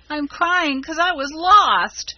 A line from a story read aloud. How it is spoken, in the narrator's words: bawled Rob, trying to squeeze out a tear and failing entirely